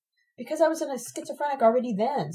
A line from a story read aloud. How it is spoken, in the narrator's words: Sabina exclaims